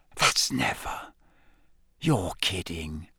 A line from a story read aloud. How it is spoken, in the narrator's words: Ron whispered